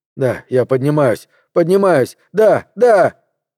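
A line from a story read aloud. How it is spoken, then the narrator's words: Pained yell. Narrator (Russian): заорал от боли, когда в голове трижды звякнул клаксон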